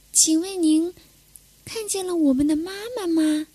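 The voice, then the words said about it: Asking softly, quiet voice. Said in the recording (Chinese): “小声的问”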